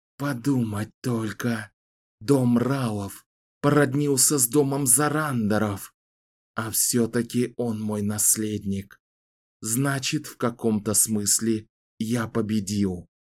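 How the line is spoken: Hoarse wheeze. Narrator (Russian): прохрипел Рау

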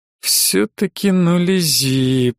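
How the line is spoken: Thoughtful drawl. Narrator (Russian): протянул задумчиво Мерцель

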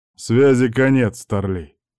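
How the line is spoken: Soldier, muffled voice. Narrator (Russian): глухо ответил десантник

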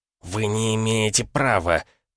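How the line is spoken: Through gritted teeth. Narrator (Russian): процедил Троцкий

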